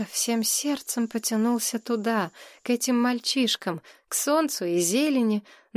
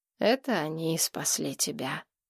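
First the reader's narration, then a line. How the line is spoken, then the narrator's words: Sighed. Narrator (Russian): вздохнул Гурский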